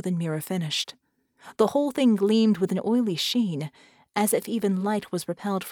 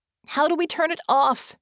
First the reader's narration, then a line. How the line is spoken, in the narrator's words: Vicky screamed